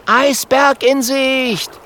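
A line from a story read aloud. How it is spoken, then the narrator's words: Calling out. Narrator (German): ruft Kokosnuss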